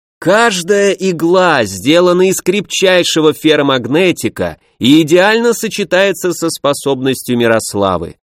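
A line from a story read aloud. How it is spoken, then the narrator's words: Cheerful shouting. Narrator (Russian): бодро кричал Борис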